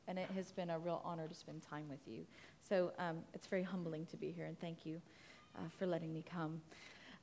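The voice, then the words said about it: American accent. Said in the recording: “That is an American accent you are hearing.”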